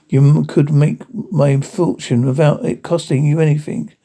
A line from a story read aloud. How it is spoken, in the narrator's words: pleaded the young man